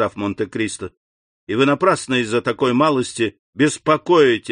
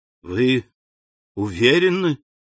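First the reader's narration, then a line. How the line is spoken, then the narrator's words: Confused repetition. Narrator (Russian): повторил Бошан, растерянно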